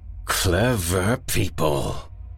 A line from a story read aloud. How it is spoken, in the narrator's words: snarled the man